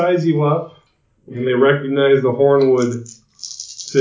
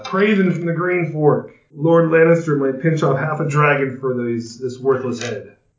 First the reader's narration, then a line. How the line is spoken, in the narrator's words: One of the men laughs and says